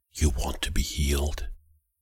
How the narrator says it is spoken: His breath was cool on my cheek as he leaned over to whisper

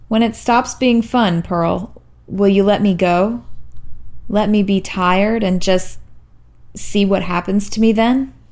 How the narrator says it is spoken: sighed

